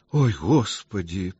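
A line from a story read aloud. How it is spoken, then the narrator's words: Moaned. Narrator (Russian): простонала Ольга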